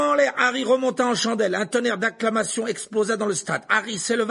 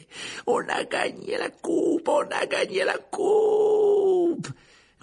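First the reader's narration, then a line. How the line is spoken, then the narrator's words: Players shouting breathlessly. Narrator (French): les joueurs de Gryffondor se laissèrent descendre vers le sol en hurlant à perdre haleine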